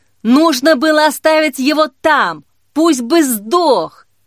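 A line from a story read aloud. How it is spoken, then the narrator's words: Yelling. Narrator (Russian): Орал Лука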